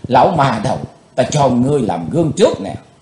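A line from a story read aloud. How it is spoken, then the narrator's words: Hissing hatred. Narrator (Vietnamese): Chàng rít lên giọng căm hờn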